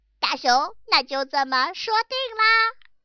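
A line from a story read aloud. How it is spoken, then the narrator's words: Smiling. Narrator (Chinese): 野兔笑了一笑，说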